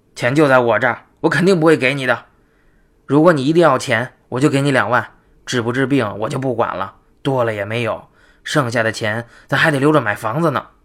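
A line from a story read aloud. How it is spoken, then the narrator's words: Cold husband. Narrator (Chinese): 她丈夫冷冷的表态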